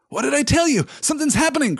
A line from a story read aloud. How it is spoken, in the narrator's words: cried Sam